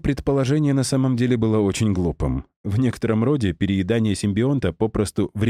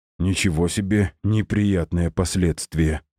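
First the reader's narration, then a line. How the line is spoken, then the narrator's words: Mutter. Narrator (Russian): пробормотал я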